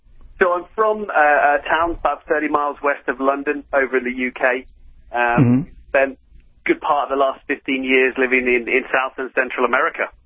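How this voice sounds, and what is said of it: Non-local, British-sounding accent. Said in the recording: “Everybody can tell from your accent you're not here locally”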